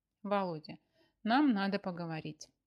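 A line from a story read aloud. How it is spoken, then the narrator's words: Agitated, breathless. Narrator (Russian): начала Маша, взволнованно дыша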